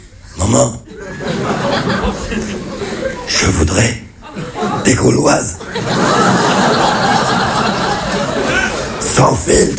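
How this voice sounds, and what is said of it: Hoarse, raspy imitated voice. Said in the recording (French): “c'est mon père qui a un cancer de la gorge... d'imiter l'accent cancéreux”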